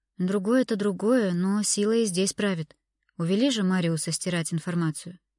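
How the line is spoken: Sighing. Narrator (Russian): вздохнула Аннет

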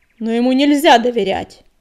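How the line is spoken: Barked. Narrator (Russian): рявкнул Крутобок

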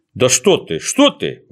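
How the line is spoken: Exclaiming. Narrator (Russian): воскликнул доктор Пилюлькин

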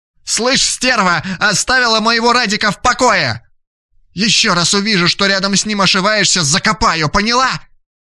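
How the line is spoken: Young woman shouting. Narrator (Russian): незнакомая девица закричала

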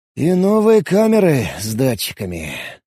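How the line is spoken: Sighing. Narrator (Russian): вздохнул я

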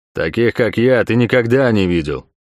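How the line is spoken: Growled. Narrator (Russian): прорычал Квинт

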